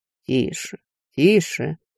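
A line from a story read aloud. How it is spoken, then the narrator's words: Calm. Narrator (Russian): спокойно ответил некромант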